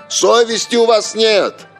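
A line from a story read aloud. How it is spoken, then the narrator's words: Discontented shout. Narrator (Russian): какой-нибудь человек, недовольный мандаринами, крикнет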